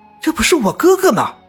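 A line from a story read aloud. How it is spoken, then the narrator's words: Youth shouting. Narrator (Chinese): 少年……大叫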